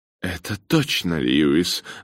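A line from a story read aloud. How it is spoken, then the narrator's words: Exclaimed. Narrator (Russian): воскликнула миссис Циммерман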